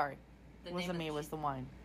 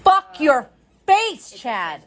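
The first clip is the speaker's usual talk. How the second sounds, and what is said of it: Yelling. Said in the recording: “Stop yelling.”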